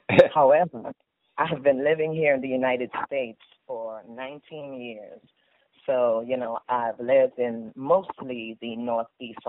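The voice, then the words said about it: Trinidadian accent. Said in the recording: “I hear an accent in there. ... I've just given you a little bit of my Trini accent.”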